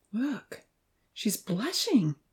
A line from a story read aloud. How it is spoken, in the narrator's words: Evan pointed out softly